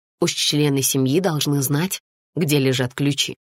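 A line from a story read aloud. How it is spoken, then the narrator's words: Plain. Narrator (Russian): сказала Анна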